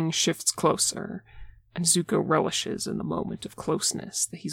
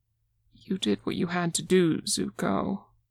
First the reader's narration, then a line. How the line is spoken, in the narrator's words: Aang says, but his voice trembles slightly